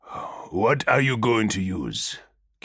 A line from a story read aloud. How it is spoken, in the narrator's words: Kidem asked, his voice dull